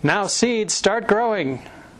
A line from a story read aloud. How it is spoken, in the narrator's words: Toad put his head very close to the ground and shouted